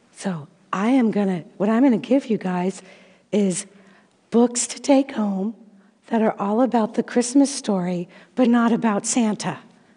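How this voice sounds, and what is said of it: Hoarse, fading voice. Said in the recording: “I am losing my voice.”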